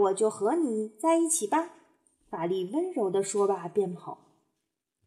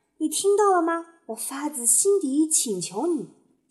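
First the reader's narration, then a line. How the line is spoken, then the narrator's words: Loud impulsive shout. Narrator (Chinese): 斑比情不自禁地大声喊道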